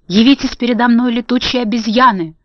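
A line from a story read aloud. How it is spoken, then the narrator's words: Loud shout. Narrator (Russian): громко закричала Элли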